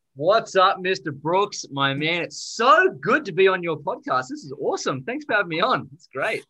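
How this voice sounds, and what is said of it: Australian accent. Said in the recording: “that was an Australian accent.”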